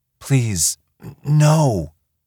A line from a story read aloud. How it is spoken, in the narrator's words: she whimpered